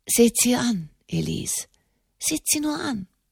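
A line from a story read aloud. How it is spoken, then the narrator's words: Murmuring. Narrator (German): murmelte Enemond de Montalier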